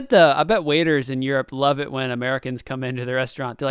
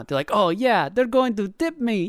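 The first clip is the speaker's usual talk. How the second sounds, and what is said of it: Generic European accent, kind of Transylvanian. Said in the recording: “It was a generic European. Generic European accent. ... Said it kind of Transylvanian.”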